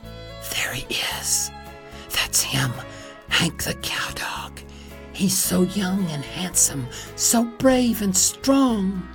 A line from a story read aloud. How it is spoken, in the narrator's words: I could almost hear them whispering